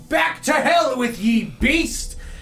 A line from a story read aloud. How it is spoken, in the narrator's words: An older man yelling